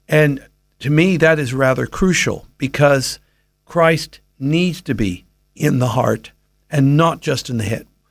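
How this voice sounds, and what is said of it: American accent. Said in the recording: “you've got the American accent, but you're 27 years an Aussie”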